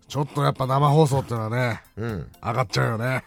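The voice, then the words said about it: Imitates another person's voice. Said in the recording (Japanese): “モノマネミュージックステーション初登場、加山雄三さんです。”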